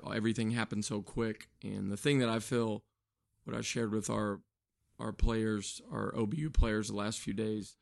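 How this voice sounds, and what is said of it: Weak, strained voice. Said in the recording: “apologize for my voice being a little under the radar”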